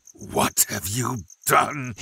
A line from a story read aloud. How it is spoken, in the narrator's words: he snarled